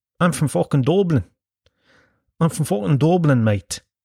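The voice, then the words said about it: Exaggerated put-on Dublin accent. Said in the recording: “That's a terrible Dublin accent.”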